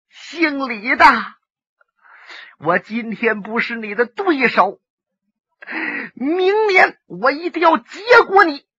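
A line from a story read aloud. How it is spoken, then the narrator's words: Bitter, miserable laugh. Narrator (Chinese): 游龙生惨笑了一声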